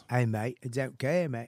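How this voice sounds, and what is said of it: Attempted Australian accent. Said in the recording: “this is the greatest accent for a not give a fuck guy ... I can't conjure up Australia from scratch”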